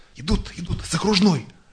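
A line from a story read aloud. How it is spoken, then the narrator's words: Rolling whisper. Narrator (Russian): прокатился шепот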